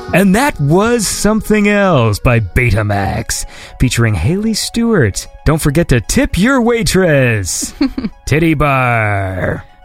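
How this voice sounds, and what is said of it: Mock club announcer voice. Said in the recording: “I'm just doing the voice ... I guess announcers don't just say titty bar”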